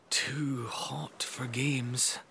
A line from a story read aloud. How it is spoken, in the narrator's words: Auntie Kira murmured